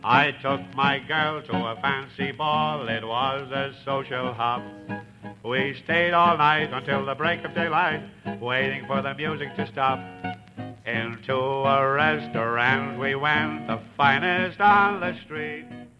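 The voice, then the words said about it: Imitated Irish accent, sung. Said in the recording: “a Welshman imitating an Irish accent.”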